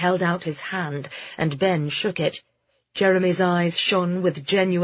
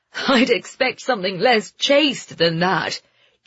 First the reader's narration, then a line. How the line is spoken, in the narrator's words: Jeremy said, laughing